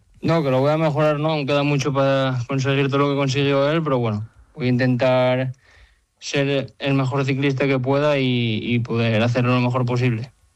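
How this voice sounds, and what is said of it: Asturian Spanish accent. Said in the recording (Spanish): “Me gusta mucho tu acento, asturiano.”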